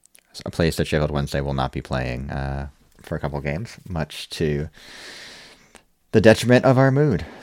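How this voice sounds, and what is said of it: American accent. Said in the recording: “American accent”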